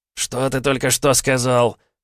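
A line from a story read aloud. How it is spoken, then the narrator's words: Hiss. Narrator (Russian): прошипел блондинчик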